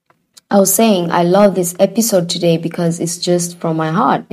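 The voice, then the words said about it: Croaky, hoarse voice. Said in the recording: “excuse my voice. ... I have a bit of like a cough situation going, so I'm sorry if I sound a little croggy.”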